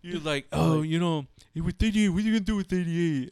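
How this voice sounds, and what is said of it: Put-on voice with a lisp. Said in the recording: “I'll give you a lisp... I'm making like, you sound like that... it just sounds funny to make him sound like that... his impersonation”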